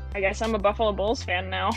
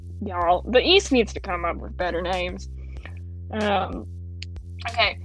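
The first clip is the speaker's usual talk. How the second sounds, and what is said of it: Southern-sounding accent. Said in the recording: “sounded southern as all get out”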